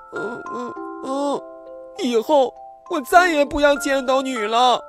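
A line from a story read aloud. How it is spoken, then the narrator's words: Crying. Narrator (Chinese): 小粉猪哭着说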